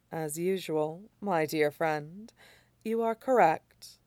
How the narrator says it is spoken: Lan Xichen murmurs

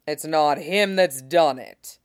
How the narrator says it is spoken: Robert growled

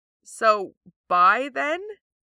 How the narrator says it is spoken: Sokka asks feebly

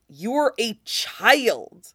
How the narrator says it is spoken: Theo hisses

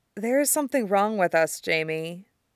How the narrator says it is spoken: she murmurs in between kisses

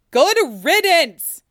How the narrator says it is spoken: shouts back through the wood

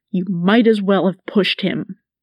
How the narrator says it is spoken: Master Wayne snarled

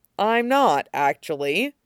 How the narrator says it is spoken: Gendry says dryly

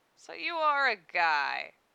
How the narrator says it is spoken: said, a sneer in his voice

